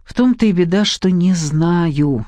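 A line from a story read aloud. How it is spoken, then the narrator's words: Sighing. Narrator (Russian): вздохнула племянница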